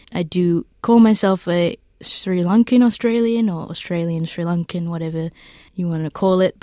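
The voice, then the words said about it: Australian accent. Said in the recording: “as you can probably tell from my accent, I'm very Australian.”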